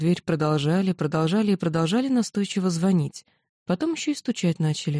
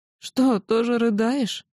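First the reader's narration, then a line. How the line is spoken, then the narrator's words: Sobbing question. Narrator (Russian): всхлипнув, спросила она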